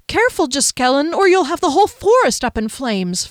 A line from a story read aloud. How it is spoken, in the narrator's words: Fennel cried